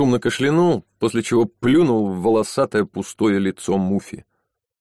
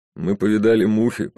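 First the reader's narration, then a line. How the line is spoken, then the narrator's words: Muttered under breath. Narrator (Russian): проворчал он себе под нос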